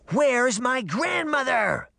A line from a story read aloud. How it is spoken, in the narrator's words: Red Riding Hood screamed